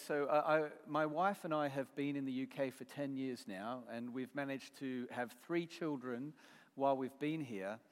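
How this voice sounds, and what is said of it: Australian accent. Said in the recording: “there's an Aussie accent coming out there”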